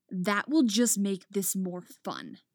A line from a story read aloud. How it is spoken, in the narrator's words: Skor sneers